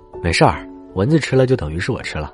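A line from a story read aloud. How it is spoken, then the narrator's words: Calm, indifferent. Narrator (Chinese): 陈鹏淡淡的说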